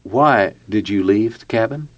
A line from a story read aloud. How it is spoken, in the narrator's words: Jeff calmly asked her